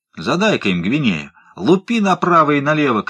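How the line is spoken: Shouted. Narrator (Russian): крикнул Фит

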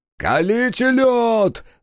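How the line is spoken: Yelled. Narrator (Russian): заорал Това

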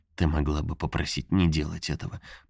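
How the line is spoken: Hesitant mumble. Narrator (Russian): промямлил он

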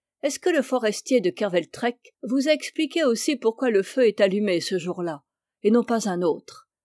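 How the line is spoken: Half-serious, half-mocking tone. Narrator (French): il reprit, d'un ton moitié sérieux, moitié railleur

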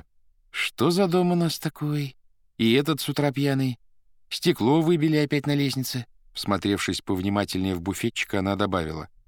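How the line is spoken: Thoughtful, smiling. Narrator (Russian): улыбнулась и сказала задумчиво

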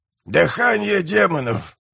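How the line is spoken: Creaky old voice. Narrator (Russian): проскрипел старик

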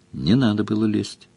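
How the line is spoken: Calm. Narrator (Russian): спокойно сказала Мара

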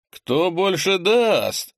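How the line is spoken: Laughing. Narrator (Russian): рассмеялся Андрей

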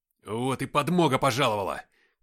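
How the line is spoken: Shouted. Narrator (Russian): крикнул я

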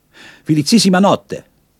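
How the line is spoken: Calling out. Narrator (German): rief ihr zu

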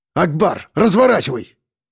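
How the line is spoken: Barking. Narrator (Russian): рявкнул я

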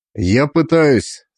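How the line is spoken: Even tone. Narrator (Russian): сказал таким же ровным тоном

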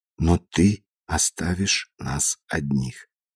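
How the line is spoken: Whispered in ear. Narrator (Russian): она прошептала мне на ухо

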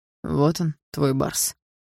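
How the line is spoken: Quiet young man. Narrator (Russian): негромко сказал парень, ведущий трансляцию

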